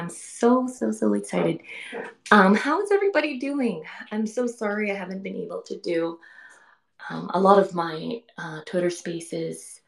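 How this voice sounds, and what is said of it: Hoarse, worn-out voice. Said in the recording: “sorry, my voice is so shot. I don't know why.”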